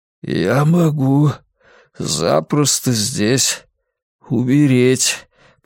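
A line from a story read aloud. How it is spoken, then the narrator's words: Hoarse, aloud. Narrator (Russian): произнес он вслух своим новым охрипшим голосом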